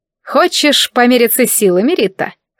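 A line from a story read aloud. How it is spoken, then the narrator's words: Smirking. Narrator (Russian): хмыкнула она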